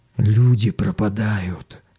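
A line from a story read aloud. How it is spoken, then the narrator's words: Whispering. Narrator (Russian): шепотом сообщил коренастый челнок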